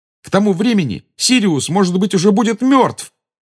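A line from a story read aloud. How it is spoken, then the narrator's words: Angry exclamation. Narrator (Russian): воскликнул Гарри, в сердцах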